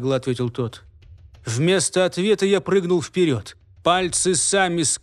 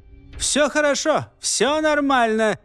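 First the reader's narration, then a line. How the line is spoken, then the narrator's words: Shouting. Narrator (Russian): крикнул Кайрат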